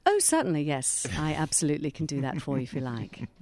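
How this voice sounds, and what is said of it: Very well-spoken British accent. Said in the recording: “I've got a very well-spoken British accent. ... See, they're great. ... I was just transported to England, to the UK then.”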